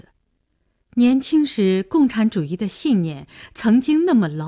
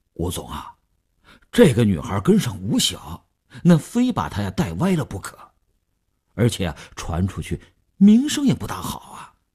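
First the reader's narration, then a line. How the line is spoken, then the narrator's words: Hesitant, reluctant. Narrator (Chinese): 李大公欲言又止，吴长天厉声再问，李大公才说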